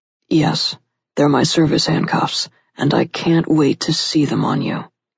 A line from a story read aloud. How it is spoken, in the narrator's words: he said gruffly